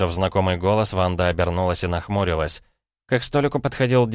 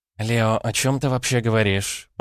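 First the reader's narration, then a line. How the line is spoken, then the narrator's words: Groaning. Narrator (Russian): простонала Ванда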